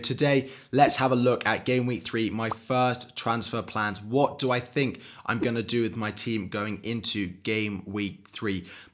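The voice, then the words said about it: Croaky, hoarse, uneven voice. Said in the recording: “apologies if I sound really croaky. I lost my voice over the weekend ... trying to do my best for it to not sound as croaky and as up and down as I possibly can”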